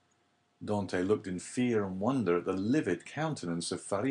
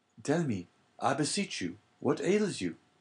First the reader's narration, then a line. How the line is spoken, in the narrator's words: cried Dante